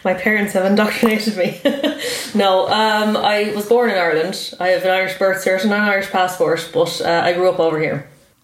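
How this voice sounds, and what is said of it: Irish accent. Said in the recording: “an Irish accent ... you never lost the accent”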